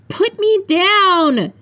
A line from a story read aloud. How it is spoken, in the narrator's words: She shouted, but I saw her smile